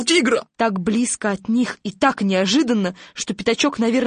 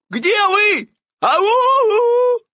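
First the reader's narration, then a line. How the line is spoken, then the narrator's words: Shouting, tiger. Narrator (Russian): кричал тигра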